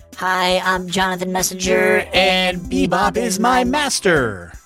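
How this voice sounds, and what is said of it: A put-on character voice. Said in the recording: “put on my Jonathan voice.”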